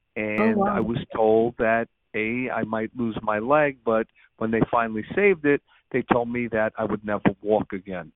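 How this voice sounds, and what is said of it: New York regional accent. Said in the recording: “my background is obviously from my regional dialect. I'm a New Yorker.”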